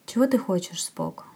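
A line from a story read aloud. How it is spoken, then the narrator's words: Soft question. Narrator (Russian): спрашивает он мягко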